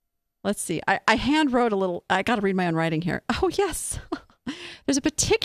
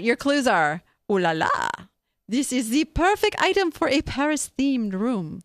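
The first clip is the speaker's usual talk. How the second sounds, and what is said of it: Put-on Polish-French accent. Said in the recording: “That's the Polish-French accent.”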